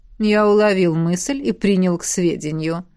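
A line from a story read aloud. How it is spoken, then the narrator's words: Purring. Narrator (Russian): мурлыкнул Эдмунд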